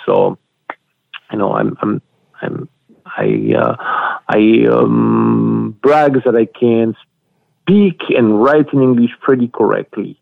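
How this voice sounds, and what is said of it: Thick French accent in English. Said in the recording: “7 of my books are written in English, and 4 in French ... that's not my first language ... my accent is still very thick.”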